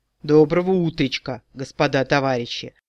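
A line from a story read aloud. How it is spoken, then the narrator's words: Booming drone. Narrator (Russian): Прогудел Миха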